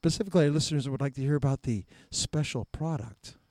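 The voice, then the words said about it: Mock public radio announcer voice. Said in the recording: “I'll do this in my NPR voice”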